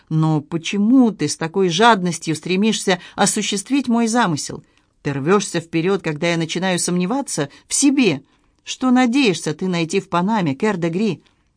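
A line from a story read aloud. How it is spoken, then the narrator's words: Thoughtful. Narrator (Russian): Генри Морган произнес задумчиво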